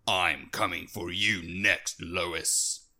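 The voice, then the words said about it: Gruff Batman character voice. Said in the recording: “Great Batman impression, ... It's nowhere near Kevin Conroy's voice. ... But it was good.”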